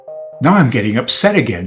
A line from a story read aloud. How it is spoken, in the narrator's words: cried in dismay